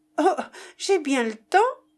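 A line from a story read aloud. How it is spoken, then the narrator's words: Exclaiming. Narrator (French): s'écria Jeanne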